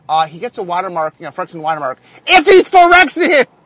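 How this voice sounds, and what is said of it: Excited yelling, loud voice. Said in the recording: “I apologize when I yell ... My voice is loud as is, so I know, I get excited sometimes.”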